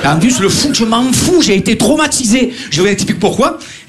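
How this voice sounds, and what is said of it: Marseille French accent. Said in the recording (French): “on entend mon accent à chaque fois ... Ah, Marseillais”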